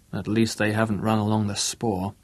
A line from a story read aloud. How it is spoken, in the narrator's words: muttered Bruce